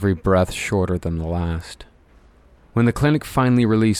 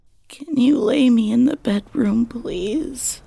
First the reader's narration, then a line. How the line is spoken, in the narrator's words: Mandela groaned